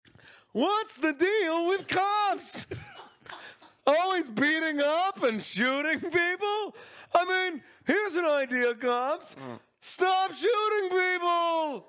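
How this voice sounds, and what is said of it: Stand-up comedian delivery. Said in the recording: “my new impression. ... ACAB stand up really comedian”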